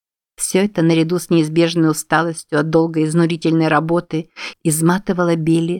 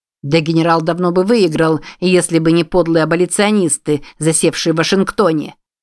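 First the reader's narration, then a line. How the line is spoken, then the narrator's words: Loud declaration. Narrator (Russian): громко заявил он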